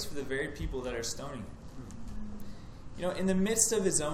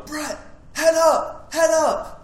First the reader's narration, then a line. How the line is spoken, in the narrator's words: she'd yell